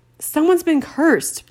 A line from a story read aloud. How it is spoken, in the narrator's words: bellowed Harry